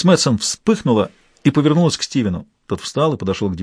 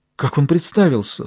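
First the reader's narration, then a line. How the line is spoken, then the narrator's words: Trembling voice. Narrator (Russian): спросила она дрогнувшим голосом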